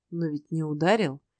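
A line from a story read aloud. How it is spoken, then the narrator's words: Gentle objection. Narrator (Russian): мягко возразил Ной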